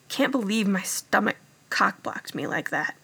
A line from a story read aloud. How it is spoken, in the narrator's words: he muttered